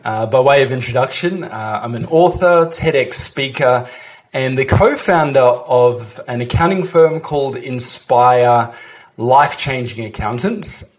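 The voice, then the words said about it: Australian accent. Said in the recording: “in case the accent doesn't quite give it away, uh, dialing in here from Brisbane, Australia”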